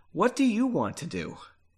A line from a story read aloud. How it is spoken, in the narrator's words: asked quietly